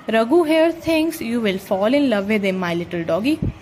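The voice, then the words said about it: Cooing baby voice. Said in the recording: “in a baby voice ... Stop with that baby voice.”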